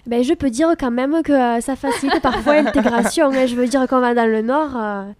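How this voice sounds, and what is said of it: Southern French accent. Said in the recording (French): “ton bel accent du Sud”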